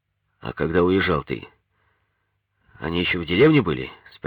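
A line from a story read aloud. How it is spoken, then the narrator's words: Plain. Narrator (Russian): спросил Сережкин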